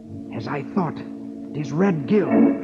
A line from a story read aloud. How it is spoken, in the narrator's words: Robin says grimly